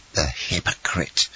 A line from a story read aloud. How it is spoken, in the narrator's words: murmured Danglars between his teeth